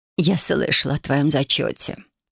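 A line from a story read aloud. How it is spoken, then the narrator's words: Sorrowful sigh. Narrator (Russian): горестно вздохнула она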